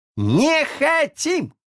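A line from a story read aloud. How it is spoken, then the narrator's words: Many voices yelling together. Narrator (Russian): заорали все разом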